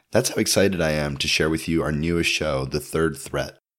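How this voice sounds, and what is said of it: Voice audibly affected by illness. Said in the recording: “coming to you live from the depths of COVID. That's you can hear that in my voice”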